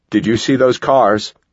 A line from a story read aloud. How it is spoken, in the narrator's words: Dan yelled to Caitlin